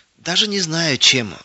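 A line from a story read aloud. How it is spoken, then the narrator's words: Sighing. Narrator (Russian): вздохнула соседка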